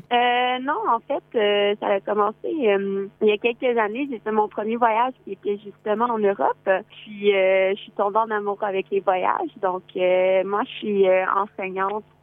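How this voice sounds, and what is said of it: Québécois French accent. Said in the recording (French): “À l'accent, je crois deviner que tu es québécoise.”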